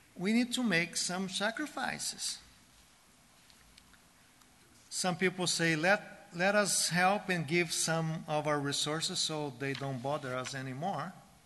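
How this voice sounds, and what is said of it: South American accent. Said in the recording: “With that accent? Yeah, we know. South American.”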